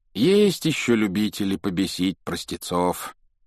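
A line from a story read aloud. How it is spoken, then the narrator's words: Sighing. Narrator (Russian): вздохнул мистер Уизли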